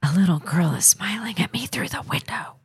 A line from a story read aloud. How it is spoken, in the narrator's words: she whispered in a scared voice